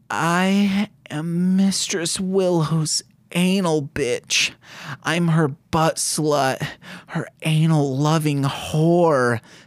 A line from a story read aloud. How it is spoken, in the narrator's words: Faith moans out in shame